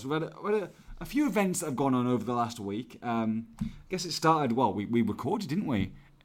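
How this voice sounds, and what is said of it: Slightly hoarse voice. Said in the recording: “You sound a little bit hoarse, my friend. ... I'm a little bit hoarse.”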